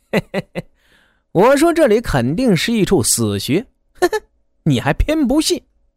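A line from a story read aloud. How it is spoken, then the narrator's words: Laughing. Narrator (Chinese): 瘦子笑的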